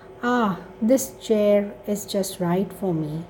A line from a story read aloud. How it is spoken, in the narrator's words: she sighed